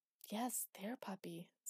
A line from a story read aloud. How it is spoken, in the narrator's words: said soothingly